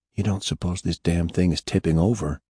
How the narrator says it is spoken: why were they whispering

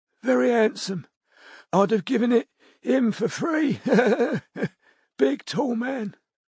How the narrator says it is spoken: said Betty wistfully

